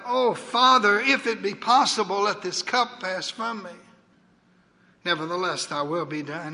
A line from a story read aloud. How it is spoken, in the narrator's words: that son, in agony of spirit, cried out